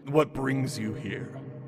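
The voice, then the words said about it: Deep rumbling character voice. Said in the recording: “you hear the rumbling of ... deep voice”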